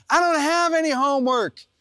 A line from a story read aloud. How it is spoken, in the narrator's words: yell back